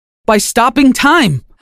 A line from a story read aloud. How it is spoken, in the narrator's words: I shouted in excitement